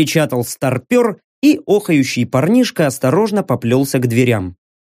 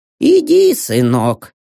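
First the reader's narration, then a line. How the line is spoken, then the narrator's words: Sigh. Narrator (Russian): вздохнул Рокс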